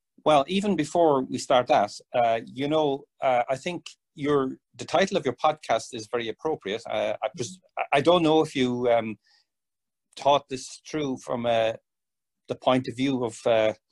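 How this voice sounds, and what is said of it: Irish accent. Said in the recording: “my Irish accent ... we love the accent”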